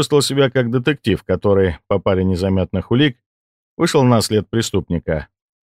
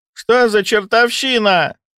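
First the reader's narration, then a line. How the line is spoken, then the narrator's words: Elderly woman's shriek. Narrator (Russian): взвизгнула пожилая медсестра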